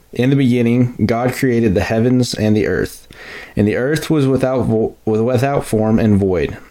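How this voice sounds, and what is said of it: West Texas accent. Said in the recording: “my wonderful West Texas accent”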